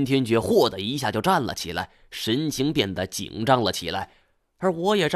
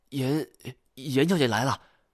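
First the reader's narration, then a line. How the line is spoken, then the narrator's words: Hurried stammering. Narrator (Chinese): 一个伙计匆匆忙忙的，结结巴巴的说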